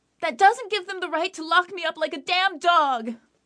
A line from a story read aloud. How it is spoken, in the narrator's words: Mara yelled